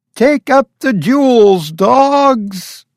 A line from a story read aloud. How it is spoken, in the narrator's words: Her voice was shrill with her emotions